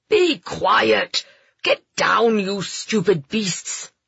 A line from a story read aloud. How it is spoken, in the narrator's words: Lord Westram bellowed